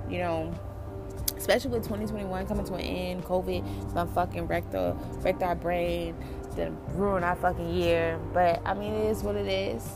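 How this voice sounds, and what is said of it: Dazed, out-of-it sounding voice. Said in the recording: “I know you guys can hear it in my voice that I'm out of it. Like, I'm just so out of it.”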